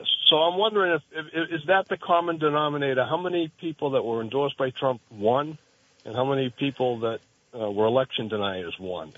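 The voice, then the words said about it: Massachusetts accent. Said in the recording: “a Massachusetts accent ... That was a Massachusetts accent.”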